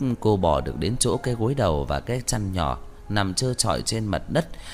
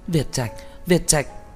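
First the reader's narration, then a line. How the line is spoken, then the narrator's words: Panicked screaming. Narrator (Vietnamese): Lâm Phàm hét lên một tiếng thất thanh ... hoảng hốt gào lên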